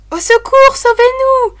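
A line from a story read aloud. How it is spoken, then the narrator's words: Exclaimed again. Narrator (French): s'écria-t-elle encore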